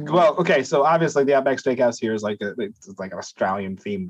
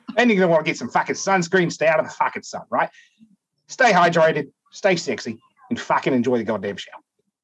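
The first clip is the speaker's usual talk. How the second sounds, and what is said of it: Put-on Australian accent. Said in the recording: “Australian accent is really hard to do. So I'll give you that. That was very good.”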